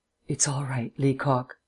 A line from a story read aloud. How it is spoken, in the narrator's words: said softly